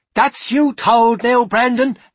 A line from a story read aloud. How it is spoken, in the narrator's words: Bean's shoulders heaved with laughter, the rest of the men hooted and shouted lines like